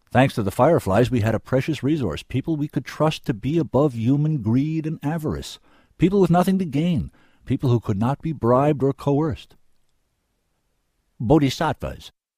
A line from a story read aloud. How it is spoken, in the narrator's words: said